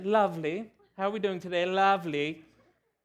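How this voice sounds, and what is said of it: Put-on British accent. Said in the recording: “you almost got to say it with a British accent.”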